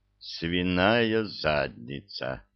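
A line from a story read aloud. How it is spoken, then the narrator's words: Muttered. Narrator (Russian): пробормотал он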